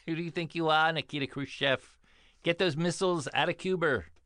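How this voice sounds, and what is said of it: Imitates another person's voice. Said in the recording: “That's my John Kennedy.”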